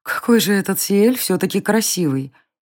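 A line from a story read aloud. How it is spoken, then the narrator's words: Thoughtful inner musing. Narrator (Russian): Еще раз задумчиво повторила про себя Варя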